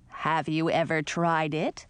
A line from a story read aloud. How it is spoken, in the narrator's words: Edric asked